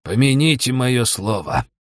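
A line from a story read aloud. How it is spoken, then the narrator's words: Grumbled. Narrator (Russian): буркнул Лаош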